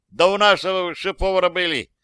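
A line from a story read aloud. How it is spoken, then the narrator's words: Shouted. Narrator (Russian): крикнул кто-то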